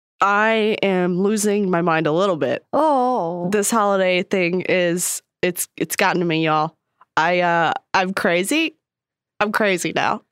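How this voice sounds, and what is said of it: Nasal, congested voice. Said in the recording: “Getting over a cold. ... You can hear it in my voice. I sound even more nasally than usual.”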